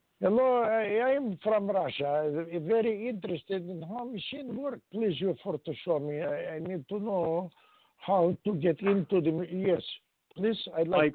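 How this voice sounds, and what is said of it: Put-on Russian accent. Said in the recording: “used a Russian accent”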